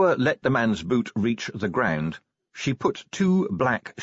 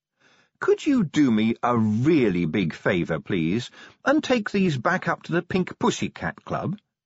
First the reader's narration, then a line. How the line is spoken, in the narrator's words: she said sweetly